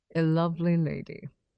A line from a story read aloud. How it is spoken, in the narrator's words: man with a soft accent